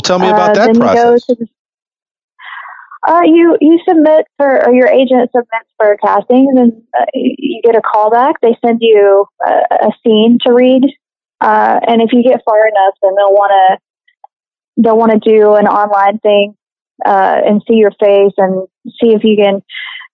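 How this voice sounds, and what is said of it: Southern American accent. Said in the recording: “I do have a southern accent”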